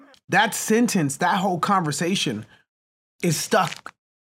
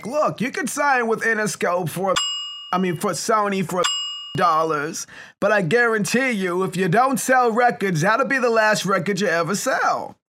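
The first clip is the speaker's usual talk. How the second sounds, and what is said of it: Imitates another person's voice. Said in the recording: “the impersonation is on point.”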